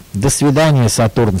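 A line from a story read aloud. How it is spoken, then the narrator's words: Plain. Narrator (Russian): сказал Ниссим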